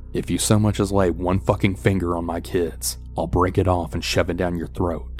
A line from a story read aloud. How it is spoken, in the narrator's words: she then growls at the man